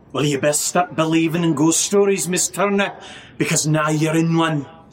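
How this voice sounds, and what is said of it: Accent slipping a little Scottish. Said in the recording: “That went a little Scottish there. ... I really like the accent.”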